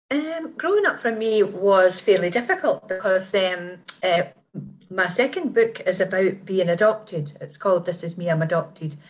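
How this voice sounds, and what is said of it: Scottish accent. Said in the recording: “you've got a great Scottish accent there”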